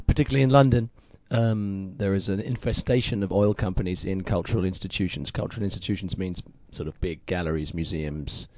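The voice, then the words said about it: Slightly hoarse voice. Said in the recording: “I'm a bit hoarse, partly because we had an Art Not Oil workshop this morning”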